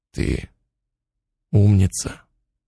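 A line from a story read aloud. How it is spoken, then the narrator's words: Quiet male voice. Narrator (Russian): Он негромко сказал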